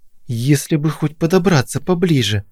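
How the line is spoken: Hissed through clenched teeth. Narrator (Russian): прошипела Кристина сквозь стиснутые зубы

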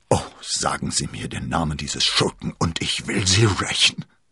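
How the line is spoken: Groaning. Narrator (German): stöhnte er

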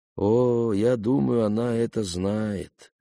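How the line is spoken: Uncertain, hesitant. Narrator (Russian): господин Хасакава неуверенно добавил

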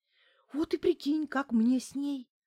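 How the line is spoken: Mournful sigh. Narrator (Russian): вздохнула Неделькина, скорбно

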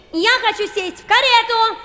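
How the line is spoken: Young girl shouting. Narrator (Russian): закричала маленькая разбойница

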